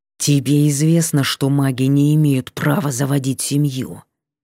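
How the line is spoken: Hissing. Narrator (Russian): прошипел он

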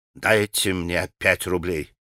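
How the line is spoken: Whisper. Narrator (Russian): прошептал он Мите

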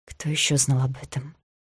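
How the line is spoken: Very quiet question. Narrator (Russian): Очень тихо спросила

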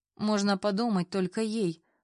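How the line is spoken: Snorted. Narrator (Russian): фыркнула Ирка

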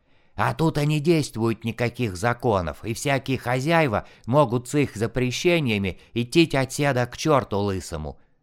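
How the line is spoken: Rasping wheeze. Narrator (Russian): просипел щетинистый

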